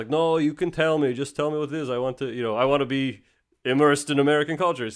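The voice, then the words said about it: Put-on Russian accent. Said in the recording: “the Russian guy ... It's the accent”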